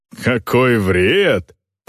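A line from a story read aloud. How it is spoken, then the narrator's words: Laughing. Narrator (Russian): Торкель рассмеялся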